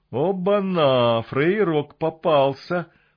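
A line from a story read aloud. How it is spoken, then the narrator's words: Drunken nasal voice. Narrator (Russian): прогнусавил один из них пьяным голосом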